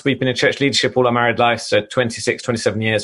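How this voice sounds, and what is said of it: English accent. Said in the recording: “is that an English accent?”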